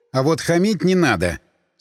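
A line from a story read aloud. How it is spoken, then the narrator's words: Stern. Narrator (Russian): строго сказал я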